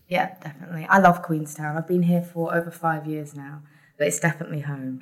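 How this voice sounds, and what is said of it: British accent. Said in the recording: “As you can tell by my accent, I'm from the UK”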